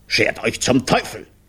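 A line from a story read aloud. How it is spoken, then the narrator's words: Roaring. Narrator (German): brüllte Brunelli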